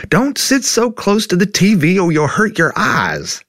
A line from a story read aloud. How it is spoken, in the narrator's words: your mom yelled from the other room